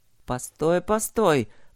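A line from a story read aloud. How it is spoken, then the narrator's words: Mutter. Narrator (Russian): пробормотал он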